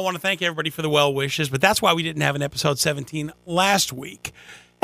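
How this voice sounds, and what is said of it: Voice still not fully recovered. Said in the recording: “as you can hear, my voice is still not 100%”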